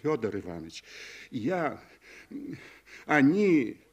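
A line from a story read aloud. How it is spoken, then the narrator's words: Frightened, near-tearful voice. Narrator (Russian): Кощук обратился к нему испуганным, почти плачущим голосом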